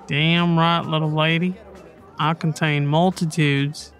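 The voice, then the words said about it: Deliberately bad put-on accent. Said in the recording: “terrible accent.”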